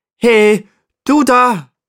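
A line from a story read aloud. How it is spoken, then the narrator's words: Calling upward. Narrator (German): ruft Paddy zu dem Steinbock hinauf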